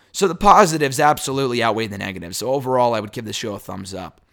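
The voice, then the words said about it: Hoarse, worn-out voice. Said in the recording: “My voice is killing me. My throat is fine. It's just that my voice is shot because I was coughing all day yesterday and earlier today ... even with my shot voice”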